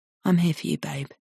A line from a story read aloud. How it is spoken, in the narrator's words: he says softly into her ear